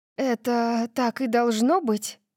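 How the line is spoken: Sighing. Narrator (Russian): вздохнула я

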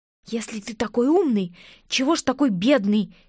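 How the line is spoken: Angry whisper. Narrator (Russian): Сердито прошептала я вслед

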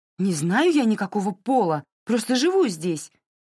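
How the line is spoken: Desperate exclamation. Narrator (Russian): В отчаянии воскликнула Кензи

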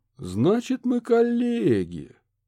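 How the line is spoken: Drawling. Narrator (Russian): протянул Курт

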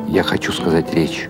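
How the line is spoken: Plain. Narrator (Russian): ответил Бенни Крик

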